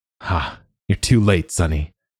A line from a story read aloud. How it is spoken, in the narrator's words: General Deckler had said, chuckling